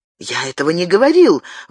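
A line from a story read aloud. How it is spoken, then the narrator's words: Exclaimed. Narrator (Russian): воскликнул Габриэль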